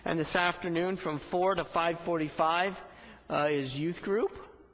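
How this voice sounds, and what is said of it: Voice cracks mid-sentence. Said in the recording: “my voice cracked.”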